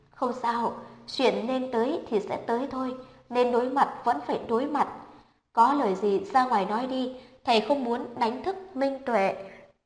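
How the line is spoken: Stiff smile, sighing. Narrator (Vietnamese): Dáng vẻ tươi cười của Tạ Thiệu Văn vô cùng cứng nhắc, thở dài một tiếng

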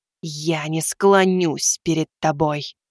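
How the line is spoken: Hissing. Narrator (Russian): прошипела она ему в лицо

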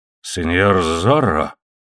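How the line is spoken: Hoarse rasp. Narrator (Russian): прохрипел губернатор

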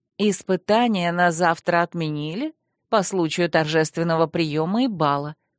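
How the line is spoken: Gentle explanation. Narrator (Russian): также мягко пояснила подруга

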